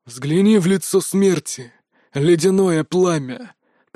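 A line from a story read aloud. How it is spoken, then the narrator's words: Hoarse, unnatural voice. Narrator (Russian): прохрипел Василий Демидович не своим голосом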